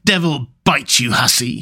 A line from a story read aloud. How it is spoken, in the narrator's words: he growled disgustedly